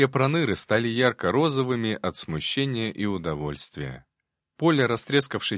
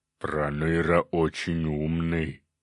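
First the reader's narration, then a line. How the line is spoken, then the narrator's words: Approving growl. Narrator (Russian): одобрительно прорычал циклоп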